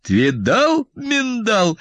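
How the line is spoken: Joyful guffaw. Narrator (Russian): радостно захохотал

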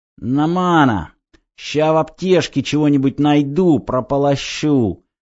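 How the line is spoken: Lisping. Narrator (Russian): прошепелявил

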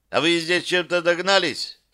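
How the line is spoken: Laughing. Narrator (Russian): приятель рассмеялся

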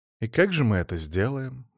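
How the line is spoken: Sighing. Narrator (Russian): вздохнула Нефис

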